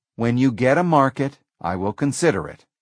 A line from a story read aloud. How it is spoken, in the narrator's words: Gates replied